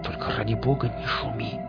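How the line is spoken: Hissed warning. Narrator (Russian): зашипел на него я

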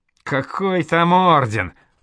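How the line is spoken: Skeptical snort. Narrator (Russian): Радогор хмыкнул

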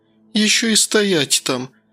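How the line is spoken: Groaning. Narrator (Russian): простонала Светка

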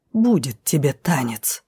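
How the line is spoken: Menacing hiss. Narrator (Russian): прошипел повелитель, угрожающе тряхнув головой

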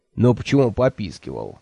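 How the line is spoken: Snorting. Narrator (Russian): фыркнул Кофа

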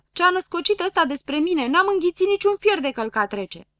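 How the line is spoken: Hurried shriek. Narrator (Romanian): țipă grăbilă

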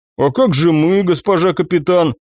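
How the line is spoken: Offended young woman drawling. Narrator (Russian): обиженно протянула девица

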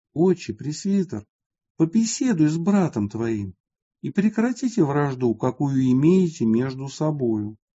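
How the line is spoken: Quiet voice. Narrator (Russian): тихим голосом сказал

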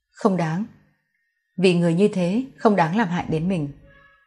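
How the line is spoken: Soft-spoken woman. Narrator (Vietnamese): Cô lắc đầu khẽ nói

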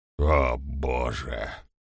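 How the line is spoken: Muttered. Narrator (Russian): пробормотал

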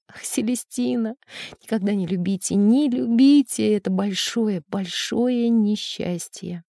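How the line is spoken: Tearful muttering. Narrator (Russian): в слезах она, чтобы заглушить рыдание, бормотала

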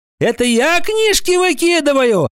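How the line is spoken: Indignant. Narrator (Russian): Сеня Мордюков, который вдруг выкрикнул прямо с места и без очереди

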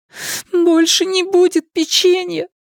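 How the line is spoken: Speaking through tears. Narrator (Russian): проговорила она сквозь слезы

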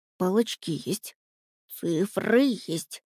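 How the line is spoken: Muttering rabbit, under breath. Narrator (Russian): забормотал кролик себе под нос

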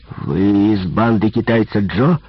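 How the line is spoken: Boss growling. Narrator (Russian): прорычал начальник

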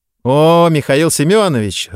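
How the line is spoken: Joyful greeting. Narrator (Russian): радостно встретила она меня

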